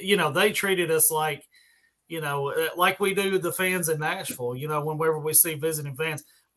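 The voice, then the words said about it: Country Southern American accent. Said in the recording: “definitely country accent that I have”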